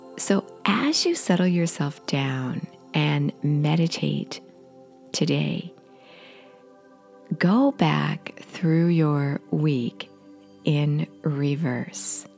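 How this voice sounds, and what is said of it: Scratchy voice. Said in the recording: “my voice is a little scratchy again today. I'm getting over a cold.”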